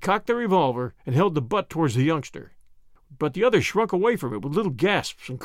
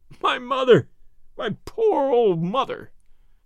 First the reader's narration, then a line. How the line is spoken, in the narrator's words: he sobbed